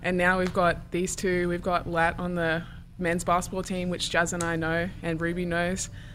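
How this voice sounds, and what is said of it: Australian accent. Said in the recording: “your accent ... one of the only Australians”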